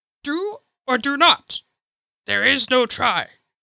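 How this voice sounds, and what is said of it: Poor Yoda impression. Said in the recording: “Terrible accent”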